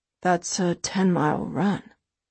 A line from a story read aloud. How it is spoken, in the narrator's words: he says quietly